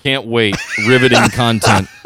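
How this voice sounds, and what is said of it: Flat, robotic, sarcastic delivery. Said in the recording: “Can you hear the excitement in my robotic voice?”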